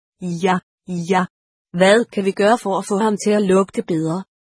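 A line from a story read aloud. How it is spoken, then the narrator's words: Chuckling. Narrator (Danish): Sygepasseren klukkede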